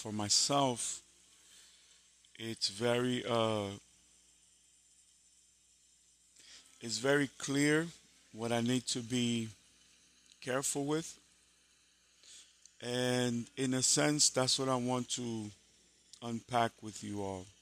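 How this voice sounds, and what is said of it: Hoarse, weak voice. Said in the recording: “As you can all tell, I have lost my voice.”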